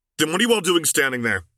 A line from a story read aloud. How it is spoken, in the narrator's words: Luke snapped back